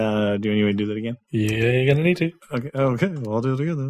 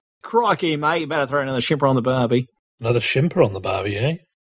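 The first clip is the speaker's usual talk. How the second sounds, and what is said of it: Put-on Australian accent. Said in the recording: “nothing like faking to be an Australian ... doing the accent right”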